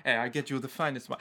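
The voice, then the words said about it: Bad put-on Italian accent. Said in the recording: “our bad Italian accents”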